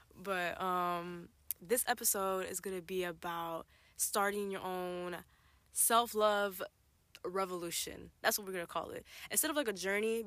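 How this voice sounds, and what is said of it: Tired-sounding voice. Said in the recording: “I'm tired... if I sound tired, that's why”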